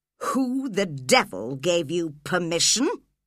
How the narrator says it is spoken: growled Heathcliff

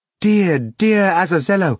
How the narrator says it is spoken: Margarita exclaimed

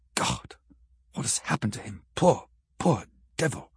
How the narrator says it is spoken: he said softly

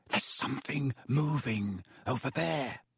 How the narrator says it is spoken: Harry breathed

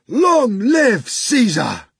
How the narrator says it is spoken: the soldiers in the cohorts cried out fearsomely

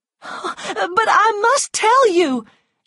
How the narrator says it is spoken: she cried

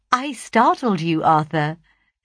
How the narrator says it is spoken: said I, laughing in my glee

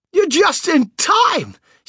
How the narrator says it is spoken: shouted Grandpa Joe

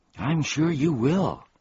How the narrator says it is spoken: gasped Milo

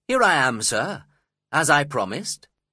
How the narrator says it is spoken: said cheerfully

